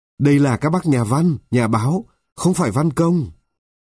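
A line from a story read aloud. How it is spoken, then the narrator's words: Shouting. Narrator (Vietnamese): Bí thư sự hét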